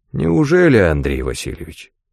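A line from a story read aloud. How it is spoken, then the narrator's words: Insinuating question. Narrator (Russian): вкрадчиво переспросил голос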